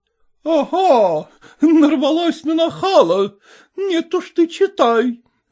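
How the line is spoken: Mother exclaiming. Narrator (Russian): воскликнула мать

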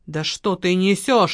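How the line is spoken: Irritated reply. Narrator (Russian): раздраженно ответил мужчина

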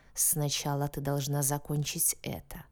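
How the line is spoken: Beast growling. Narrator (Russian): зарычал зверь

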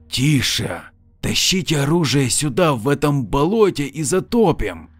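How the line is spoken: Groaning hoarse rasp. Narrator (Russian): Лейтенант издал звук наподобие стона и прохрипел

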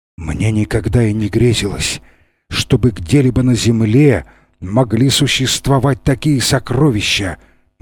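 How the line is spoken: Muttered, awestruck. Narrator (Russian): бормотал он, опьяненный этим зрелищем

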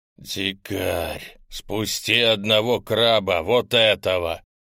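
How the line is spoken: Hoarse. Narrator (Russian): хрипло проговорил гуманоид

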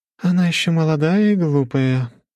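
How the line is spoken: Young woman sighing. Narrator (Russian): вздохнула зеленоволосая девушка

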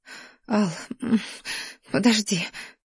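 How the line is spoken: Overwhelmed sob of pleasure. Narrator (Russian): всхлипнула я, умирая от слишком бурного потока наслаждения, который накрывал с головой

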